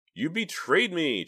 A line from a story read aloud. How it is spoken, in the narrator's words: Justine shouted at him